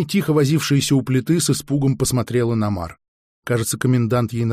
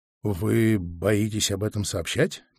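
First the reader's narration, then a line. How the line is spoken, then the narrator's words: Quiet question. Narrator (Russian): тихо спросил я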